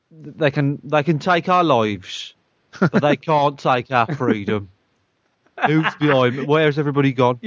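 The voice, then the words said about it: Black Country accent, bored-sounding. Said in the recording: “a Black Country accent ... You'd just sound bored, wouldn't you? ... my accent is just an accent that just sounds fucking stupid”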